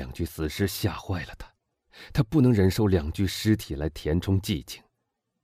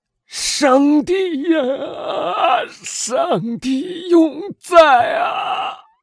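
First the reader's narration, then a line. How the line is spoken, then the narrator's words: Grief-stricken shout. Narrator (Chinese): 他悲痛欲绝的喊道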